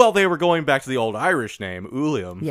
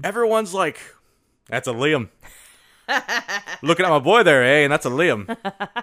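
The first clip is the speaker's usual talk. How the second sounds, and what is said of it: Irish-sounding accent. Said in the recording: “That sounded Irish and not Canadian.”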